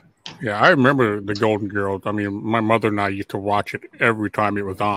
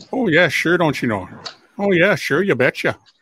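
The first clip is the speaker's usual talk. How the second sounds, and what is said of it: Minnesota accent. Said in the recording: “Rose, who was from St. Olaf, Minnesota, my home state. That accent.”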